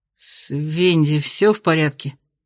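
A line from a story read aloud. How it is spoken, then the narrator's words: Strained, forced out. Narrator (Russian): выдавил он наконец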